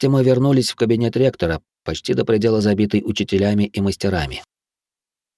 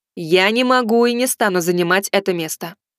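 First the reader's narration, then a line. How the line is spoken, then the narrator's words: Loud. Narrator (Russian): громко сказала Арчиха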